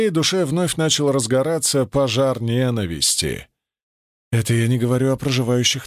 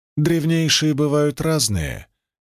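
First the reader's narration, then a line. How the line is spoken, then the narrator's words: Sad reply. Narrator (Russian): грустно ответила Ада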